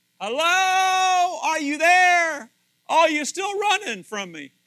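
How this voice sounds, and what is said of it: Screaming loudly. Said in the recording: “He's screaming ... I scream louder”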